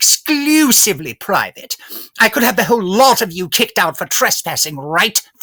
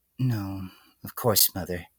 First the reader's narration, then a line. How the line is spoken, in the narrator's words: the filly murmured in response, almost entirely out of habit